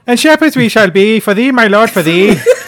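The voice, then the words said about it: Put-on Irish accent. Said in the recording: “I did it in an Irish accent ... can you give us one line in the Irish accent?”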